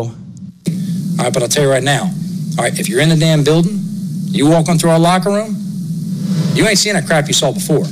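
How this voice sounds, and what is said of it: Booming Northeastern American accent. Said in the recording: “that incredible Northeast accent, that edge, and that, guys, I'm one of you, boomy”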